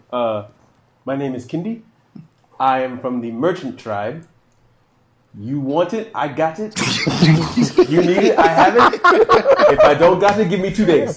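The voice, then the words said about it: Put-on accent, self-described as poor. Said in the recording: “I'm terrible at accents, by the way.”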